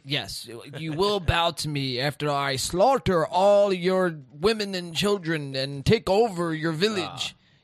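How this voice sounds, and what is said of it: Villain voice with put-on accent. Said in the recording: “Why'd you have to use that accent? ... I'm just acting like a bad guy”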